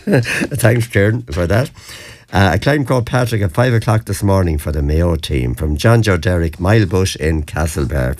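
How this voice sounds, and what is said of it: Hoarse voice. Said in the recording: “You spared your voice a bit for tonight. I thought you'd be even hoarser. Well, I'm hoarse enough, but I shout enough.”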